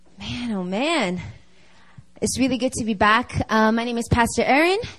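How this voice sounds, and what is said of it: Out of breath, panting speech. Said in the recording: “coming up to this sanctuary is a workout ... I'm out of breath right now”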